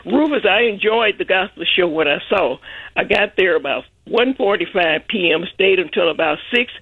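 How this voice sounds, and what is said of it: Congested, sinus-affected voice. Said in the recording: “Excuse the voice this morning. My sinus is acting up.”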